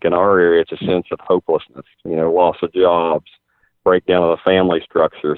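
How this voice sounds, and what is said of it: West Virginia accent. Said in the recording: “your West Virginia accent”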